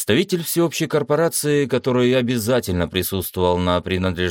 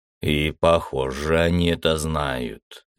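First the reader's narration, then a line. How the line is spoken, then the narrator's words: Displeased grumble. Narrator (Russian): недовольно проворчал адмирал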